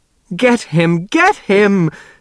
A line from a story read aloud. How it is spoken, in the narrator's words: Niemer screeched